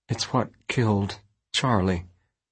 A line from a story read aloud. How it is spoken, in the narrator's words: she said quietly